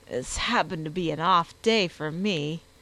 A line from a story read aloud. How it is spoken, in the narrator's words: Gilroy groaned